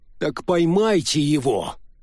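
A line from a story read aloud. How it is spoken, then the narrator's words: Irritated suggestion. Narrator (Russian): раздраженно предложил Феллер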